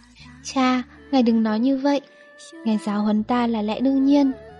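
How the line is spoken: Smiling. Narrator (Vietnamese): Trình Dục Chi mỉm cười nói

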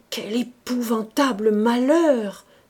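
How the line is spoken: Stammering. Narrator (French): balbutiait le président

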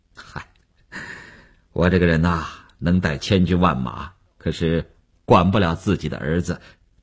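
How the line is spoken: Self-mocking, awkward, consoling. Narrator (Chinese): 吴长天也笑了笑，几分安慰，几分尴尬，自嘲地说道

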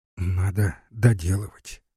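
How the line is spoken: Inner whisper. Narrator (Russian): опять шептала ей ее соображение

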